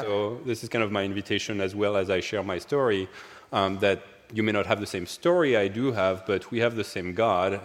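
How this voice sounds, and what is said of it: French accent in English. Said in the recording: “I grew up in France, as my accent readily betrays”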